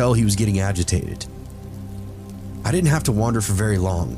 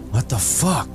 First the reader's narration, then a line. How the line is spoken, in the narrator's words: Benji hissed